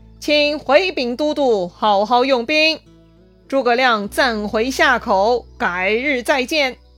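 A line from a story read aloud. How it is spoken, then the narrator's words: Hearty laughter. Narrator (Chinese): 诸葛亮大笑，说道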